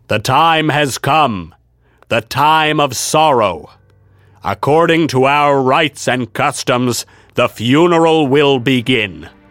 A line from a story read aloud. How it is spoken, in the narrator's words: in the same stentorian tones as before, Sir Littleman said